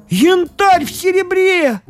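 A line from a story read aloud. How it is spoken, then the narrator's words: Exclaimed. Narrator (Russian): воскликнул Фома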